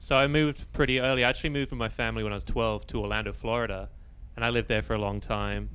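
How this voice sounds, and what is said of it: British accent. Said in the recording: “with the dialect, obviously, you know, a British guy.”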